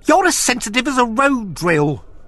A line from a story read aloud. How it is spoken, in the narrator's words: screeched wept